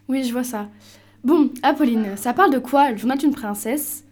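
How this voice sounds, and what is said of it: Good put-on Québécois accent. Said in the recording (French): “Très bon accent québécois.”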